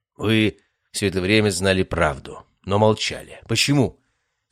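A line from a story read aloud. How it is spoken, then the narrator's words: Plain. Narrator (Russian): спросил Константин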